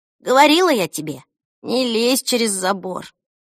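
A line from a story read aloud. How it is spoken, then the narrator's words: Muttered under breath. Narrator (Russian): Пробормотала она себе под нос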